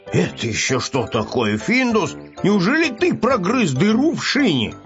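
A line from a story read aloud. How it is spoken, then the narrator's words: Angry question. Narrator (Russian): сердито спросил котенка хозяин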